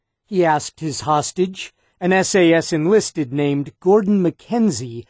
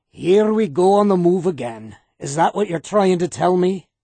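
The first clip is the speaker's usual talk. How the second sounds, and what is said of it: Scottish accent with rolled R's. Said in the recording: “rolled his eyes along with his R's, sounding as if he were doing an excellent imitation of Scotty from Star Trek. Except, hot damn, Jim, the Scottish accent was for real.”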